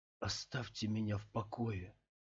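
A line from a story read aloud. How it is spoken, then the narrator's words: Barely audible mutter. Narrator (Russian): едва слышно пробормотал Скотт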